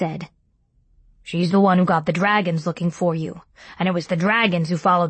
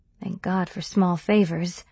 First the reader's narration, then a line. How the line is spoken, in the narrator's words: I muttered